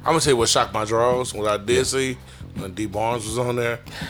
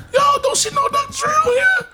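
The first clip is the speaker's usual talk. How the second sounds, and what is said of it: High-pitched voice. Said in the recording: “I got into my high voice”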